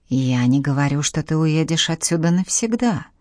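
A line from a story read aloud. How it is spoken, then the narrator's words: Smooth, ingratiating. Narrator (Russian): вкрадчиво молвил Саадет Гирей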